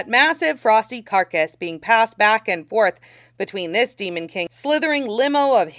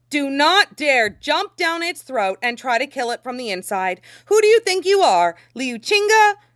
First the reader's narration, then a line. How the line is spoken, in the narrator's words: said, or, shouted